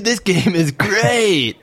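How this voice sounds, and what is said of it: Poor English accent, sounds Californian. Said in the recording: “I can't do the English accent ... That sounds like a California... What part of England is that? ... I was doing Tim, but using an American accent.”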